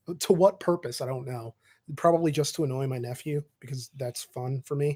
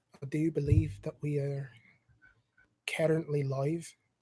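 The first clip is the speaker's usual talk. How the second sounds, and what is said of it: Bad, unidentifiable put-on accent. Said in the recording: “I don't know what accent that is. That's terrible.”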